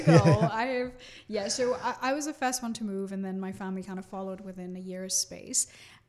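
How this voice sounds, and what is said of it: Somewhat English-sounding accent. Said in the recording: “speaks in an English accent, kind of ... I was trying to figure out your accent”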